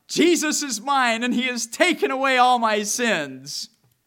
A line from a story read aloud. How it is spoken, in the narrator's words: cried out